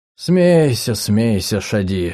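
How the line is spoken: Sighing. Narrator (Russian): вздохнул он

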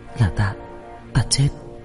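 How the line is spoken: Flustered whisper. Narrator (Vietnamese): Dương Công Tử lúng túng thì thào

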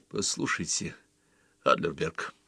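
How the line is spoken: Quiet. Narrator (Russian): сказал он тоже тихо

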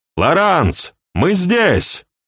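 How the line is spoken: Very loud shout, deafened. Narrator (Russian): Сергей кричал очень громко, оглохший от автоматной пальбы

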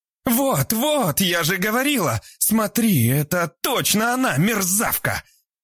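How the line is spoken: Shouting. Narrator (Russian): закричала Альбина

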